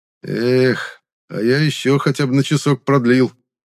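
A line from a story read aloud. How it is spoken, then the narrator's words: Dreamy sigh, blond man. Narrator (Russian): мечтательно вздохнул блондин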